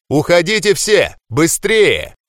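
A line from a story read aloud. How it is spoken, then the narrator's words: Shouting. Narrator (Russian): закричал я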